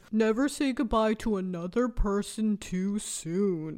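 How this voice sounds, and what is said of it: Deep voice imitating another person. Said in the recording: “my Elizabeth Holmes impression ... Why the deep voice?”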